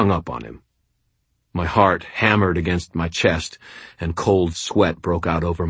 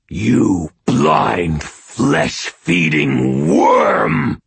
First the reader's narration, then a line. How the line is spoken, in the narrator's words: Shagnasty snarled